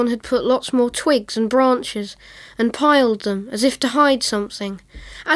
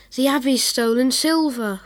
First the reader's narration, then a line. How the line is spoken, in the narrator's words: whispered Rosie